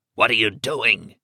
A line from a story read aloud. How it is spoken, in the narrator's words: he croaked